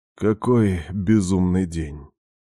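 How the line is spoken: Heavy exhale, weary. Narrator (Russian): тяжело выдохнул и произнес

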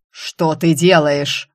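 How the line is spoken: Barked. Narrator (Russian): рявкнул повелитель

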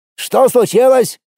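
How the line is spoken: Shouted. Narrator (Russian): крикнул Кирилл Вячеславович

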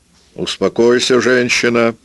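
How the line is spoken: Shout from the road. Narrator (Russian): крикнул Ансельмо с дороги

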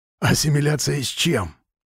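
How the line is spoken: Whisper. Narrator (Russian): прошептал он

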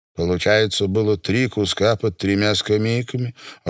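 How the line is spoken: Timid speech. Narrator (Russian): робко сказал Миша

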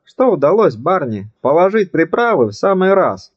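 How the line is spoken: Joyful. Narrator (Russian): радостно сказал он

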